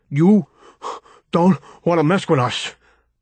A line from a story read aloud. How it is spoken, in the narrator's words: Tony said, still panting